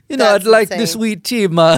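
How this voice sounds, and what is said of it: Put-on German accent. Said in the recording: “What are you, Irish? ... he's German. ... That's my German accent. ... It's dead on.”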